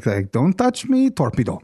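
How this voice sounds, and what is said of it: Bad put-on German-like accent. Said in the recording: “that was a very bad accent... it was a very good accent for something that wasn't German”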